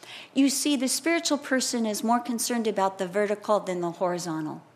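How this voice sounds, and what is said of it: Usual voice. Nothing is said of it.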